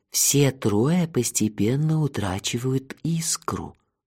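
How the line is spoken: Ominous whisper, meaningful pause. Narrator (Russian): зловещим шепотом поведал Джанира и многозначительно умолк

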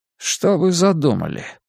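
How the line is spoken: Low voice. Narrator (Russian): вполголоса обратился к Линь Юнь полковник Сюй

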